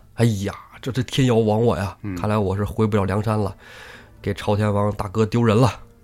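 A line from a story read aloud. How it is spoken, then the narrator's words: Sighing. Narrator (Chinese): 宋江就叹呐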